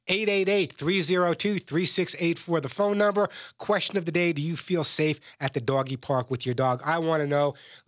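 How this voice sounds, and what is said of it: Congested voice from a cold. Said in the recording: “I have a bit of a cold. Do I sound a little different this week?”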